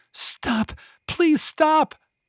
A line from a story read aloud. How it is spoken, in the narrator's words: Penny huddled behind Kyla, crying and screaming